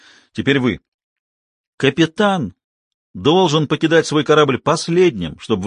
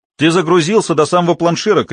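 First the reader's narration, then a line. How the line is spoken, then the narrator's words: Shouted. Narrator (Russian): крикнул Грир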